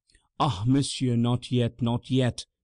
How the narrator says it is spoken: panted the priest

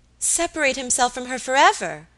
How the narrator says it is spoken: exclaimed Alicia

